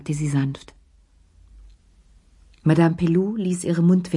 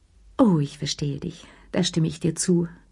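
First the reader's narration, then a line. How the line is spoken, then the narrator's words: Weak, tired sigh. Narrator (German): seufzte sie mit matter Stimme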